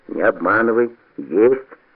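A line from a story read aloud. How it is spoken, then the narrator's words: Hoarse rasp. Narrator (Russian): прохрипел Бобырь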